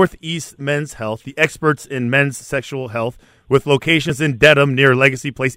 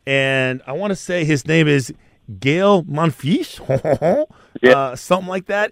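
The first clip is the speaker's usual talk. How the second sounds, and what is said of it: Put-on French accent on a name. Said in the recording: “That's my best French accent there”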